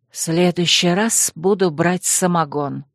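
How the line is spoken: Muttered. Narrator (Russian): пробормотала

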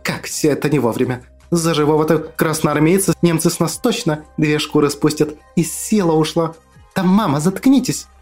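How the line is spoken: Hissing. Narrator (Russian): Зашипела Акулина

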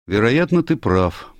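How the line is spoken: Grim. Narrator (Russian): мрачно произнес Али

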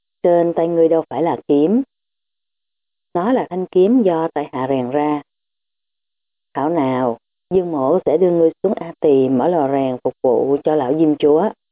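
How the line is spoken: Smiling, menacing. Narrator (Vietnamese): Dương Trụy mỉm cười rồi nói

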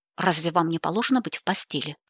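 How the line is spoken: Sharp question. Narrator (Russian): резко поинтересовался Джастин

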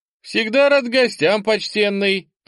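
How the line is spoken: Shouted after someone. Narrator (Russian): выкрикнул вслед ему бармен

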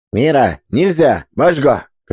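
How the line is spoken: Shouting. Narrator (Russian): крикнул он

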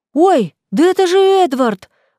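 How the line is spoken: Sudden exclamation. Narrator (Russian): вдруг воскликнула

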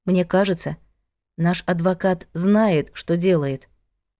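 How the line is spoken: Gentle objection. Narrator (Russian): мягко возразила Надя

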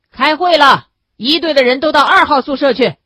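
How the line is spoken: Shout. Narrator (Chinese): 有人喊

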